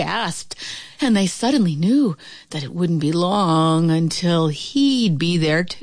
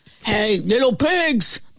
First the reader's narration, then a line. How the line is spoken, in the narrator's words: the wolf bellowed